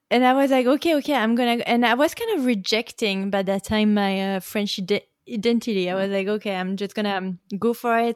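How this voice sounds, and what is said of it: French accent in English. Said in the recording (French): “I was saying with my French accent ... remove a little bit of your French accent ... your French accent”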